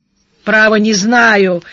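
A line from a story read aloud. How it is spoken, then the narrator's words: Angry. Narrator (Russian): сердито сказал Даглас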